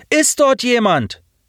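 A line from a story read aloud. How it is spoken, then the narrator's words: Called out. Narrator (German): rief er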